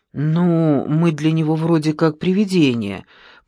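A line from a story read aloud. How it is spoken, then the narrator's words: Mutter. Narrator (Russian): пробормотал Петров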